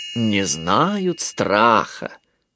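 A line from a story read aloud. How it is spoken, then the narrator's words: Drawl. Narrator (Russian): протянула Малли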